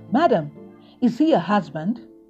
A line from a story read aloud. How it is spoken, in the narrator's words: the bellyman shouted